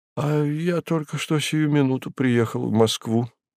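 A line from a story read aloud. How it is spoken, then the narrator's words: Bewildered. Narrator (Russian): растерянно ответил профессор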